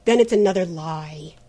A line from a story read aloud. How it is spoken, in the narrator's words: said Trent bitterly